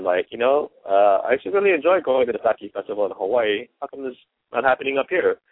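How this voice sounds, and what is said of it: Laid-back Hawaiian island accent. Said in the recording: “that laid-back accent ... you're from the islands”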